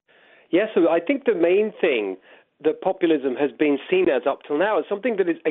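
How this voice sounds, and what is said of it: British accent. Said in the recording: “the British bit of my accent ... I've been here 6 years now, so I may be losing a little bit.”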